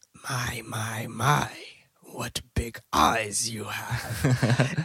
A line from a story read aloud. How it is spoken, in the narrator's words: whispers